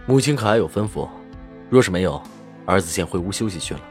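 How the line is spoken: Deep, grave voice. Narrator (Chinese): 沉声道

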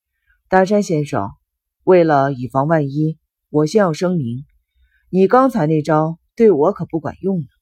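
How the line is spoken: Cold sneer. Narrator (Chinese): 仓木对着大山浮现出一丝冷笑

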